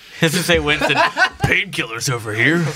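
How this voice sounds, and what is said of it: Imitates a game character's voice. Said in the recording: “That's a good Winston impression.”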